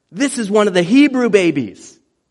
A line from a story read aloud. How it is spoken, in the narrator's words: she exclaims